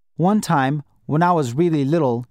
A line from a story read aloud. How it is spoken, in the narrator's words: he said